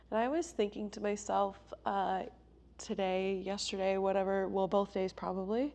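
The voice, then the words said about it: Sick-sounding voice. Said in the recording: “I sound a little differently today because I am sick.”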